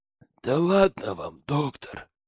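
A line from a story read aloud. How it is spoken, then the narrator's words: Hoarse, grinning. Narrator (Russian): Улыбаясь во все зубы, прохрипел Петрович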